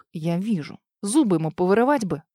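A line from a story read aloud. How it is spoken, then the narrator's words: Angry words through teeth. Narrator (Russian): Зло процедил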